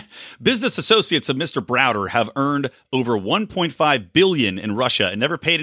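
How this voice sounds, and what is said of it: Usual voice. Nothing is said of it.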